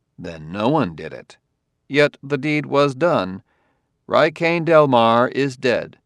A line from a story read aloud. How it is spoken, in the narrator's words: Bailey said calmly